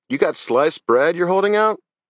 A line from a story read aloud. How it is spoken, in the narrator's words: Thad laughed